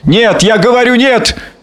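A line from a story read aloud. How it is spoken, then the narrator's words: Forceful shout. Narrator (Russian): крикнул Гарри с силой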